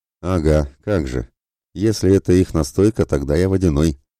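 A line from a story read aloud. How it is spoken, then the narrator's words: Sullen mutter, old man. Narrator (Russian): насупленно пробурчал себе под нос старый знахарь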